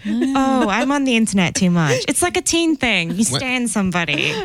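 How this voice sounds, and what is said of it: Australian-sounding English accent. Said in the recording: “Where's your accent from, by the way? ... I just sound Australian ... A lot of people do say you're Australian ... Everyone thinks I'm Australian.”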